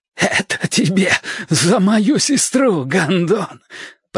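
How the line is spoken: Hoarse rasp. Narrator (Russian): прохрипел Билл Теркот

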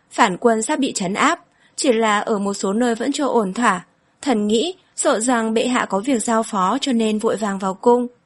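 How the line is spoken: Smiling reply. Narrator (Vietnamese): Hắn mỉm cười đáp

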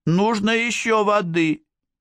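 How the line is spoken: Shouted. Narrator (Russian): крикнул

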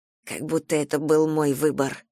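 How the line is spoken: Muttered. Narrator (Russian): пробормотала я

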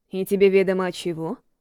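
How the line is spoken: Quiet laugh. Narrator (Russian): Макрос негромко рассмеялся

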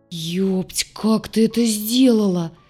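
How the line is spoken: Near groan. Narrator (Russian): почти простонал док

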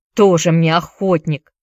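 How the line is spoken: Through gritted teeth. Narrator (Russian): процедил сквозь зубы Чакерс

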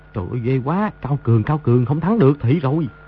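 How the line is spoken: Muttering. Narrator (Vietnamese): lẩm bẩm

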